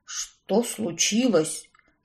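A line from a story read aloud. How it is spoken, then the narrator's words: Whisper. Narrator (Russian): зашептал Картер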